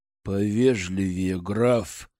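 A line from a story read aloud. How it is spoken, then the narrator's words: Menacing growl. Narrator (Russian): прорычал я так, что он действительно испугался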